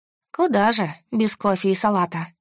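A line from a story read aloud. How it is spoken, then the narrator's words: Sigh. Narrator (Russian): Вздохнула я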